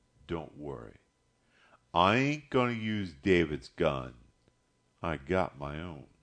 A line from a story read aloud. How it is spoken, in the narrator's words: he said quietly